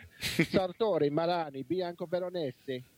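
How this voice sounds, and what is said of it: Deliberately bad Italian accent. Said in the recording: “I'm going to put this in my best Italian accent, which means it's going to suck.”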